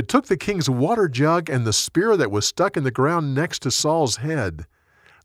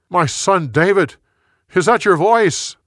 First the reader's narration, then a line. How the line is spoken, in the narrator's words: Saul yelled back